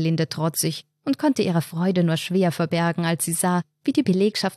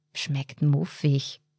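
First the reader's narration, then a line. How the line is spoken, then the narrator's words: Whispered. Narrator (German): flüstern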